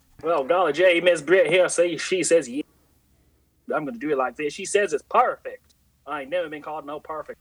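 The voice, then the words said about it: Put-on hick southern accent. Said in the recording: “like a hick accent ... kind of got that southern type sound ... do that voice”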